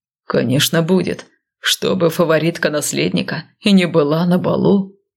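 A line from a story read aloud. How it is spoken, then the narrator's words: Smirking young man. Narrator (Russian): хмыкнул парень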